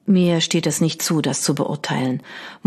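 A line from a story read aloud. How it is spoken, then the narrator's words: Murmur over rattling noises. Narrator (German): murmelte über die röchelnden Geräusche hinweg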